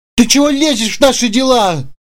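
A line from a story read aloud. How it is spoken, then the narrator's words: Furious uncontrolled shout. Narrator (Russian): крикнул Сергей, и его опять накатила еще более неконтролируемая злость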